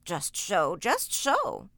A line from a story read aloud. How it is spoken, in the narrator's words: chuckled the queer little old man